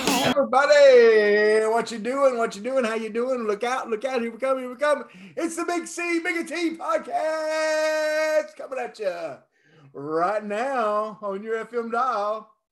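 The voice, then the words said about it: Over-the-top radio DJ voice. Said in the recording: “I was doing kind of a radio voice there and I just went all crazy with it.”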